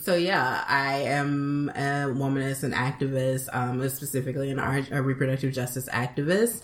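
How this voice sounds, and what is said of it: Southern Alabama accent. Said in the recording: “I'm originally from Birmingham, Alabama... I come by this accent, honestly.”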